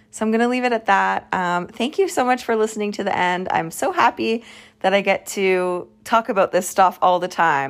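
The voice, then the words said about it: Strained, worn-out voice. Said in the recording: “I must have been talking a lot today because it sounds like my voice is going a little bit”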